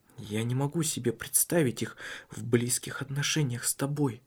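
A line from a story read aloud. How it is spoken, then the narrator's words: Whispering. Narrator (Russian): прошептал он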